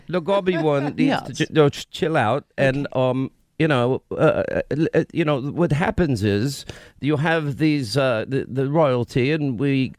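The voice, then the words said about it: Poor put-on British accent. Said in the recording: “is that your best British accent? Because the gobby one says it's terrible ... Wow, that's so bad ... Are you trying to do Pakistani? I can't work it out.”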